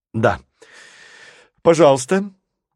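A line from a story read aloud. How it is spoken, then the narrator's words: Loud young girl. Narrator (Russian): громко произнесла девчушка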